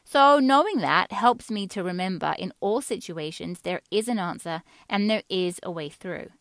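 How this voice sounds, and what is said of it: Faint English accent. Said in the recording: “a faint accent in my voice. Some would say not so faint. That's because I grew up in England.”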